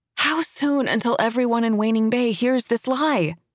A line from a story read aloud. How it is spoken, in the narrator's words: I groan